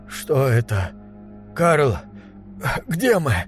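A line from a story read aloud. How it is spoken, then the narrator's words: Hoarse. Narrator (Russian): заговорил он, наконец, хрипло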